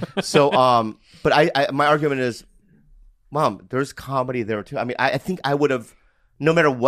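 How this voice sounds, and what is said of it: Usual voice. Nothing is said of it.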